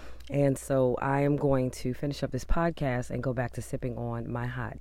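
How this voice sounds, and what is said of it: Rough, changed voice with a cold. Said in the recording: “my voice sounds so much different today than it has over the last few days ... I am dealing with this cold ... it does feel like somebody has taken sandpaper and still rub the inside of my throat”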